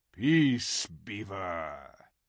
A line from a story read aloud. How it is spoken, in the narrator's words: said Aslan with a very low growl